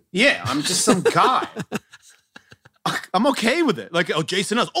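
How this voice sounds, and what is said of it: Speaks with a noticeable accent. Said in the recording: “this guy with the accent”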